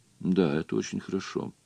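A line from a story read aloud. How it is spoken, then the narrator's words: Completely calm. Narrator (Russian): совершенно спокойно сказал Джон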